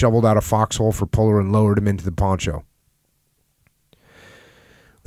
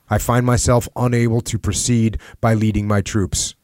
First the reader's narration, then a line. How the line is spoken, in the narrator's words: said